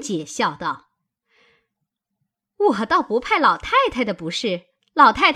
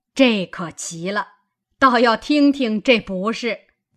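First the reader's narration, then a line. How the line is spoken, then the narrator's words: Laughing. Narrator (Chinese): 贾母与众人都笑道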